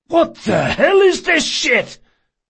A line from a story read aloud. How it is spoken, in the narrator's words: he gasped